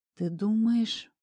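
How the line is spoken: Drawling. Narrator (Russian): протянула я

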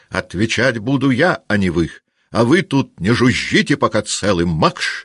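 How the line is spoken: Shouted. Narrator (Russian): крикнул он

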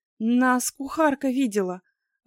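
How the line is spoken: Unhappy breathless exhale. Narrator (Russian): выдохнула несчастная леди Джейн Пирсон

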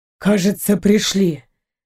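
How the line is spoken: Exhaled relief. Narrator (Russian): выдохнул Джамас

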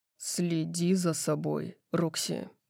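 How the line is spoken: Growled. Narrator (Russian): прорычал он

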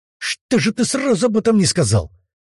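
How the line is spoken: Angry shout. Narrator (Russian): выкрикнул Демидов со злостью

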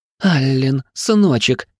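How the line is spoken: Sobbing. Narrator (Russian): зарыдала на моей груди

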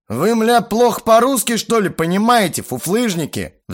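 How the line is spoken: Sullen furious roar. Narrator (Russian): взревел набычившись Боба

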